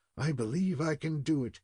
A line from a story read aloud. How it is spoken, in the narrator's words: muttered more than once